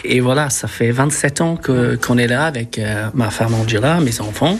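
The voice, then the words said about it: Slight foreign accent in French. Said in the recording (French): “avec ce petit accent”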